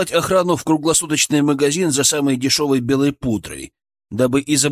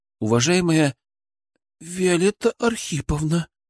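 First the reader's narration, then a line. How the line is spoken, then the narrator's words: Forced out. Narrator (Russian): выдавила та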